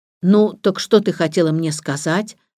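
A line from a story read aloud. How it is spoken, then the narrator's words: Plain. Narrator (Russian): спросил Самиэд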